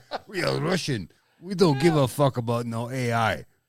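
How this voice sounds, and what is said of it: Put-on Russian accent. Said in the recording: “I like making the Russian accent.”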